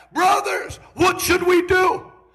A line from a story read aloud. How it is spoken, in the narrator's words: the same people that were mocking were pricked in their hearts and yelled back